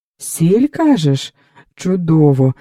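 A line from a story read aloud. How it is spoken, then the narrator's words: Joyful exclamation. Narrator (Ukrainian): радісно вигукнув Потоцький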